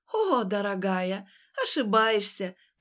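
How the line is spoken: Nasty laughing brash woman. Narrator (Russian): противно расхохоталась наглая тетка

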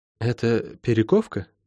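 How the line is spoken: Quiet question. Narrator (Russian): тихо спросила Лайн

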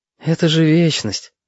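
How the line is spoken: Sighing. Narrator (Russian): вздохнул Витька

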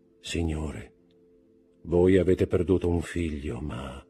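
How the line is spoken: Soft, almost humble. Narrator (Italian): gli disse sottovoce, con tono quasi umile

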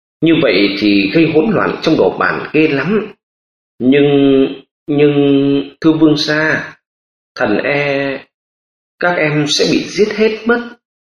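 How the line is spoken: Trembling soft voice. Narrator (Vietnamese): Hà Mai Việt run run nói nho nhỏ

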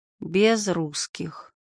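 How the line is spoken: Bitter sigh. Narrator (Russian): Вера горько вздохнула

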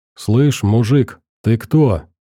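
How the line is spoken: Calm question. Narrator (Russian): Спокойным голосом спросил Ренат

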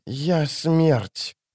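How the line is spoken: Strange voice. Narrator (Russian): продолжала она странным голосом

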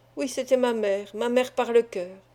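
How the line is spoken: Young girl murmuring. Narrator (French): murmura la jeune fille

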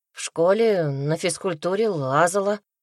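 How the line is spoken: Hesitant reply. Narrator (Russian): неуверенно ответила я

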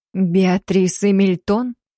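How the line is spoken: Muffled questioning. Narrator (Russian): Глухо переспросила я

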